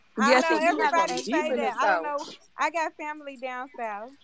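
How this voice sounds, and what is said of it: Southern US accent. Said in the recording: “I would have thought you was from Mississippi or something, that accent.”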